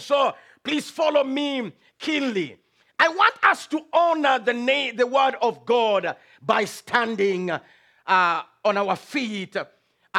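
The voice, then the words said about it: Strong accent. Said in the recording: “my accent is strong”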